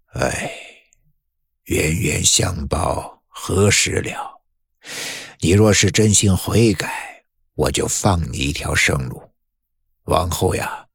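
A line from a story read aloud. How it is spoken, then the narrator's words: Long sigh. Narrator (Chinese): 张老板 他却长叹了一声说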